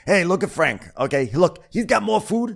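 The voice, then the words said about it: Imitation of Frank's voice. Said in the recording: “I'm doing the Frank voice.”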